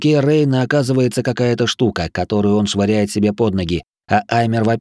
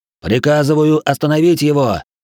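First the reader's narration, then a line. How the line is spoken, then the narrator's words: Shouting. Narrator (Russian): кричал Аймар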